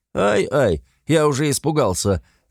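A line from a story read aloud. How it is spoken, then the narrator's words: Mocking, playful. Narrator (Russian): Насмешливо дурачись, ответил Веллингтон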